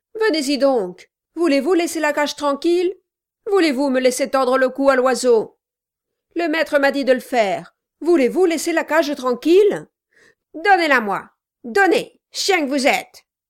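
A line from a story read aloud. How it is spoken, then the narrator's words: Yelled. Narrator (French): hurla Kilp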